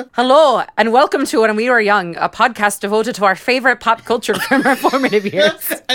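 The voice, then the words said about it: Exaggerated put-on Scottish accent. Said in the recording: “Can I read this in my horrible Scottish accent? ... it sounds Irish. I can't do Scottish.”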